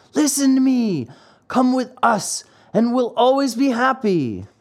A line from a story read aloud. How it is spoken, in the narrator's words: Lampwick called out